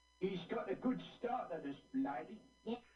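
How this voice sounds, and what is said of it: Exaggerated Cockney accent. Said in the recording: “That's his Cockney accent? ... he sounds ugly ... He sounds like it's like the 1860s and he's in a horse carriage ... it's so cockney.”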